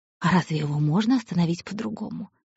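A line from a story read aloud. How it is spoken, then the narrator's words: Ingratiating question. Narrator (Russian): также вкрадчиво спросил пес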